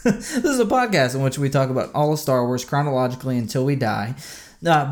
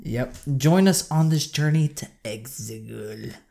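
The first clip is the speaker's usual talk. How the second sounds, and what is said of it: Raspy angry French-sounding Palpatine voice. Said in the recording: “Ew. What was that? That was like that's an angry Frenchman... That's Palpatine with throat cancer.”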